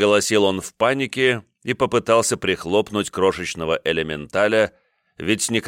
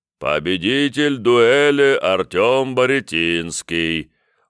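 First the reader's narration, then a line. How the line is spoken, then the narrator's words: Deep booming bass. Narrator (Russian): утробно пробасил священнослужитель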